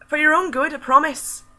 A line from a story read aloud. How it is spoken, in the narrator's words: she shouts down at him